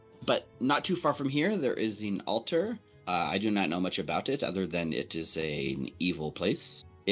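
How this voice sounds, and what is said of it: Speaks with a put-on accent. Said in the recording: “I have an accent. I must apologize.”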